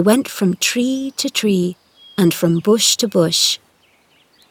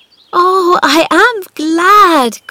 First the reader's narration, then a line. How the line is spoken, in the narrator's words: cried Mary